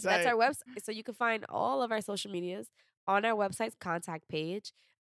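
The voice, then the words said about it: Stuffed-up, congested voice. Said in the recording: “I sound like a stuffed up chihuahua”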